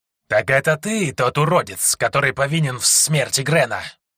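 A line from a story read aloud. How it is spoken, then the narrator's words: Hissing. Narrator (Russian): прошипел получеловек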